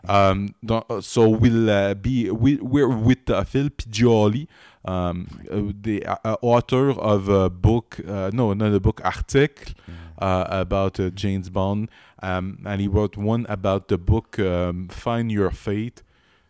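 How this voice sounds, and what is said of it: Exaggerated bad French-Canadian accent. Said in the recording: “I'll do a little bit of a French-Canadian accent ... I'm doing a bad French-Canadian, typical French-Canadian accent ... Too much mustard ... I'm going to bring it to 11”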